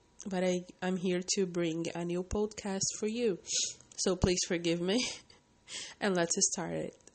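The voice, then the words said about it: Voice sounds a bit funny. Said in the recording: “I've got a cold and my voice is a bit funny”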